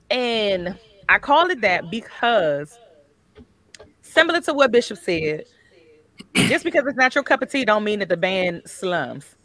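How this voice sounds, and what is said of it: Country accent. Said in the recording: “once my country accent is out here, once my country accent come out”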